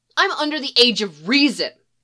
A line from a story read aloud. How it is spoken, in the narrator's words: hollers back